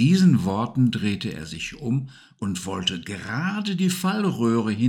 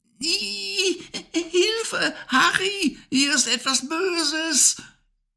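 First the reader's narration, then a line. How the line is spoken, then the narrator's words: Screaming at full strength. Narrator (German): schrie sie aus Leibeskräften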